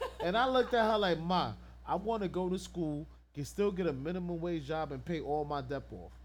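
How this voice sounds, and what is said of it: Usual voice. Nothing is said of it.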